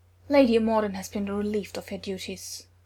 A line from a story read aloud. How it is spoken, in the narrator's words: Odin said flatly